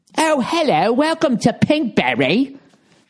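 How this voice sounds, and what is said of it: Put-on posh English accent. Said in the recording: “it's got an English accent? ... with like English, all of a sudden it starts to sound a little hoity-toity”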